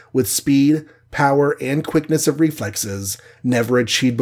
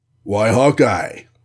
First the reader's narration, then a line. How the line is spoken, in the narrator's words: rumbled Goliath, half accusingly